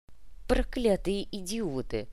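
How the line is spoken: Grumbling. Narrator (Russian): буркнул Кортес

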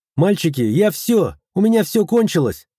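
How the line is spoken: Sudden shout. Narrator (Russian): Совершенно неожиданно крикнула Зая

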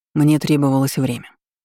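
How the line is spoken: Calm explanation. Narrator (Russian): спокойно объяснил он

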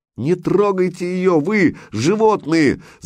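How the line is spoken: Screamed. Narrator (Russian): закричала жена

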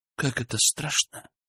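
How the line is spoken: Quiet speech. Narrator (Russian): произнесла она тихо

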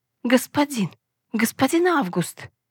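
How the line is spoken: Trembling voice. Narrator (Russian): Задрожал ее голос

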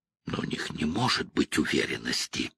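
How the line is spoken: Mumbling. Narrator (Russian): пробормотал Пол

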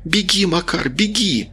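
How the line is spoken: Shouting. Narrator (Russian): Рита закричала

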